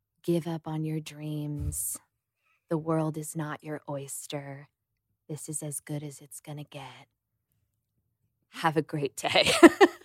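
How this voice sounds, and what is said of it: Lower, calm meditation-guide voice. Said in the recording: “I do like a lower voice because I feel like that's like what you're supposed to do”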